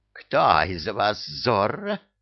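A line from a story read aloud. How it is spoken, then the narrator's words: Growled. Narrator (Russian): прорычала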